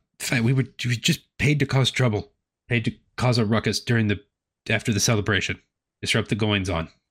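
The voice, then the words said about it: Character voice with slight Creole-like accent. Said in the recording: “I don't know what accent that is ... Mine changes like every other character for each character ... It sounds like it has a little bit of Creole in it.”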